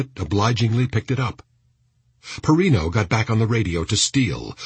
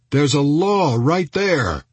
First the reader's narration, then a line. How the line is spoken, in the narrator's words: Goodale yelled to Elliot